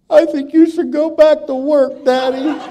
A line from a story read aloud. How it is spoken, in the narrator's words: As the tears broke loose, streamed down both cheeks, sobbed the words